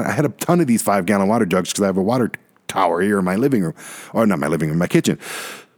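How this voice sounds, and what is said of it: Talking very fast, excited. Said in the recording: “I'm talking really fast right now because I'm just so excited about this”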